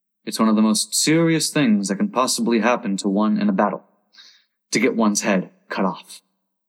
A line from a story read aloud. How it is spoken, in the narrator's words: he added very gravely